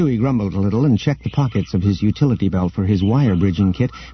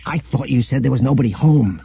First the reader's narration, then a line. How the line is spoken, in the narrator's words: hissed Han